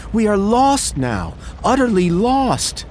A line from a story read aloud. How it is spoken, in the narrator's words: cried